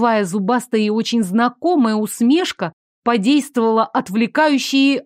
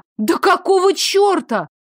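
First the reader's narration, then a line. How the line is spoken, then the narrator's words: Exclamation. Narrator (Russian): воскликнула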